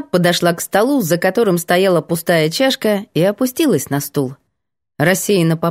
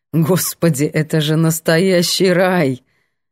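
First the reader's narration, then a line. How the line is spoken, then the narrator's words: Laughing. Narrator (Russian): Светка хохотнула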